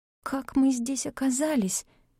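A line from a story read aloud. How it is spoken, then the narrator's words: Hoarse wheeze. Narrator (Russian): просипела я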